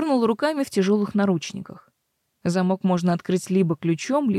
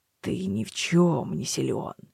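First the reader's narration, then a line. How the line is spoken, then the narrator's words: Displeased grumbling. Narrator (Russian): послышалось недовольное ворчание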